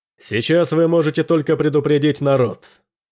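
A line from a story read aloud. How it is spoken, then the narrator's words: Loud. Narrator (Russian): громко сказал Дрейк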